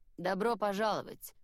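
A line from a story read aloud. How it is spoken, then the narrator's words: Dry greeting. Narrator (Russian): сухо поздоровался он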